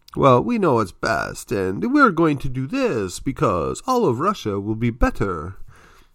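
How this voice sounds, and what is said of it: Deliberately bad put-on accent. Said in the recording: “Excuse my bad accent”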